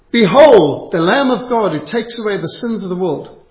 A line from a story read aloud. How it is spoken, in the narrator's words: Spurgeon shouted